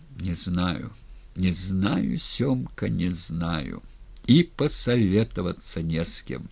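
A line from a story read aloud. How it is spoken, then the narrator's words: Quiet. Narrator (Russian): сказал тихо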